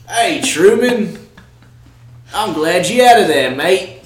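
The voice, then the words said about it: Put-on Australian accent. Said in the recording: “her authentic Australian accent”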